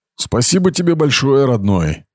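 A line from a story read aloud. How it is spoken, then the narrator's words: Angry mutter. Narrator (Russian): сердито пробормотал Брахва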